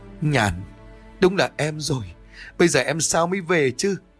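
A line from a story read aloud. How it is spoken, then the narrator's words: Crying, calling out. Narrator (Vietnamese): Họ khóc lóc lên gọi tên của nhau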